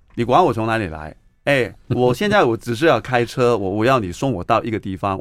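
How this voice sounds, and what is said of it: Hong Kong accented Mandarin. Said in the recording (Chinese): “香港朋友 ... 我的口音我没有改了”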